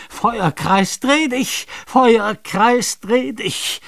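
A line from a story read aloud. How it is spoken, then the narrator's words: Screamed. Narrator (German): Nathanael schrie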